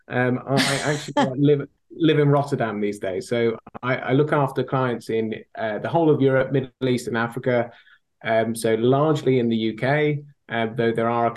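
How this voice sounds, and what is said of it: Thick British accent. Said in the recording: “my thick British accent”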